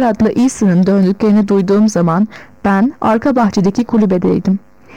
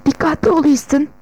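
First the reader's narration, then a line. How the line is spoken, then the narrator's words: Whispering. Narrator (Turkish): diye fısıldadım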